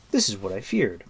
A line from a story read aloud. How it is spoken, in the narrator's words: cried Taran, dismayed